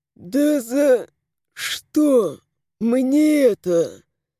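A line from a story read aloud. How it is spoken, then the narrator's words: Hoarse wheeze. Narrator (Russian): Прохрипел Антон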